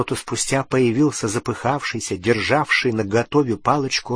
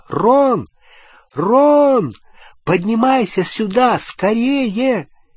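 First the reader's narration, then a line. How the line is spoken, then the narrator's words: Shout. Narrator (Russian): крикнула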